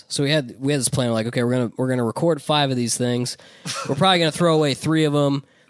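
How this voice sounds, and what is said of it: Strained, struggling voice. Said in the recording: “my voice is really suffering. I'm trying to stick it through.”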